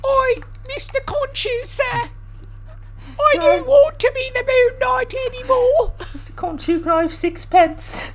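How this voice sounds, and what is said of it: Cockney accent imitating Oscar Isaac. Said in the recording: “Oscar Isaac did a pretty good job in Moon Knight of doing a, a, British accent ... he did like a nice Cockney little British accent”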